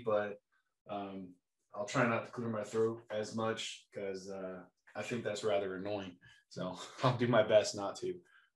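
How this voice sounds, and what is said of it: Raspy voice. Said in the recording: “I apologize for my voice. I'm still a little bit raspy”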